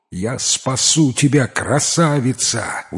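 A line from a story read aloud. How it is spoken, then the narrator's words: Shouting after someone. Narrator (Russian): успел прокричать ей вслед Аслан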